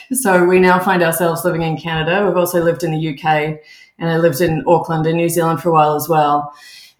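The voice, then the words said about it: Australian accent. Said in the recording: “you'll hear from my accent. I'm originally from Australia. I grew up in Melbourne”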